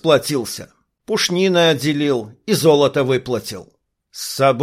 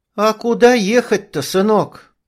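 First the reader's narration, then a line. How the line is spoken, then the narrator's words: Sighing. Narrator (Russian): вздохнула женщина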